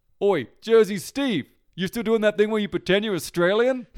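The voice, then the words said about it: New Jersey accent. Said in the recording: “in such a good accent ... he actually has a Jersey accent”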